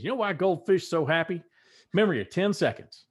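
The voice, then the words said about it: Ted Lasso impression. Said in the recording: “good Ted Lasso impression ... that was pretty good”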